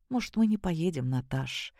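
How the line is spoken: Quiet question. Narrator (Russian): тихо спросил Саша

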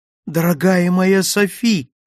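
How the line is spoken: Joyful exclamation. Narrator (Russian): радостно воскликнул я

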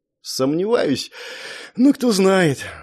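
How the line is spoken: Sighing. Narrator (Russian): вздохнул

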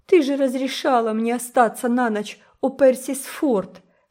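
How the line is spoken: Sobbing. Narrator (Russian): всхлипывала она

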